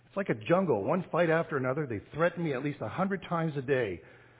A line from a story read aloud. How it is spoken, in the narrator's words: cried the son